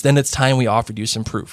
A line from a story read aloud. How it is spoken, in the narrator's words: said Black